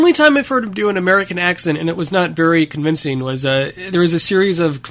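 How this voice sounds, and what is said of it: Usual voice. Nothing is said of it.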